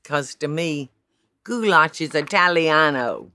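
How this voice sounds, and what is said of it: Poor Italian accent impression. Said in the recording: “That ain't a good impression, is it?”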